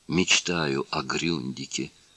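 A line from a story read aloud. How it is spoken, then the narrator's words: Female neighbor whispering. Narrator (Russian): прошептала соседка Денисова своему партнеру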